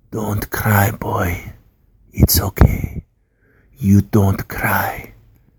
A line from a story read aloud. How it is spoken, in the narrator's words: whispered in my ear